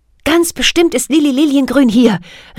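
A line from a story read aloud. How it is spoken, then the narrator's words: Excited call. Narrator (German): rief Kathy aufgeregt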